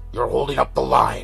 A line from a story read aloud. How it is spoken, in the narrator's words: a giant hulking star species yelled